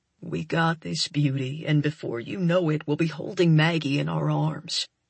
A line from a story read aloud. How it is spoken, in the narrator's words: he murmurs into my ear